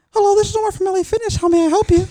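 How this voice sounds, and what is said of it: Put-on silly phone voice. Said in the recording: “I'd pull up, like, a random-ass voice ... you sound like James Charles”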